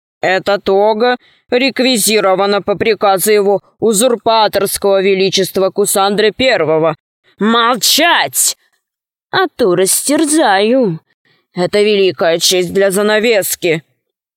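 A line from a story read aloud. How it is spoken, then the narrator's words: Wolf's growl. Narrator (Russian): Волк зарычал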